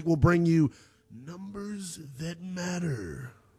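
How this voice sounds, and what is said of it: Booming announcer voice. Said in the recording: “That was my big voice guy impersonation.”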